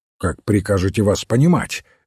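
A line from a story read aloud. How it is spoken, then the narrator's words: Sharp question. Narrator (Russian): резко спросил инспектор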